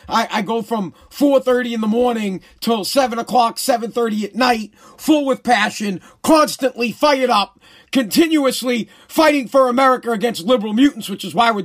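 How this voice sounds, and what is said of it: Hoarse, strained voice. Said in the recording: “My voice is a little hoarse, as you can tell. Struggling to talk a little bit.”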